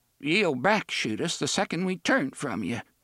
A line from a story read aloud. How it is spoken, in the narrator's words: Jeeves said in a trembling voice